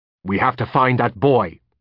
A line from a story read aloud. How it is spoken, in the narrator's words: he snapped